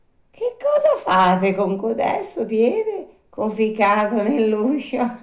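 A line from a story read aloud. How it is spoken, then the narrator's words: Puppet's laughing question. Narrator (Italian): domandò ridendo il burattino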